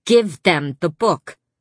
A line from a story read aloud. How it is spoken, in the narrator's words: My sister snapped